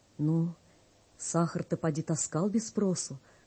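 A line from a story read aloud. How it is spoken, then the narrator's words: Gentle question. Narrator (Russian): ласково спрашивает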